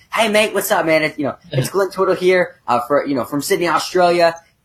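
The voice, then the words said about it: Put-on Australian accent. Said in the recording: “He has an Australian accent because he's Australian... I'm not gonna attempt to do the Australian accent anymore”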